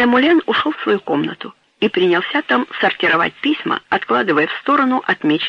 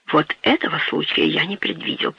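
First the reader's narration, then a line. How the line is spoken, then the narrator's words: Whisper. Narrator (Russian): прошептал он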